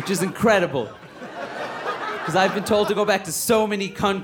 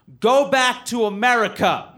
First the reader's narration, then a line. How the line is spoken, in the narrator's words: A man actually yelled